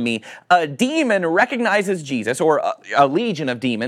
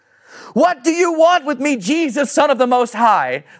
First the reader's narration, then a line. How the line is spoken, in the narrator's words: you're screaming at the top of your lungs